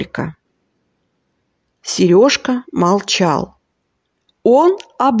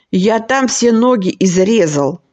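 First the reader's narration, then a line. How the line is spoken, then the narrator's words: Snapped retort. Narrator (Russian): огрызнулся Джонни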